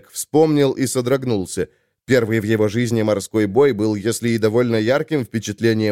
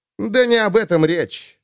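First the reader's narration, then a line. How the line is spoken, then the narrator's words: Irritated bark. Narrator (Russian): раздраженно рявкнул Айрунг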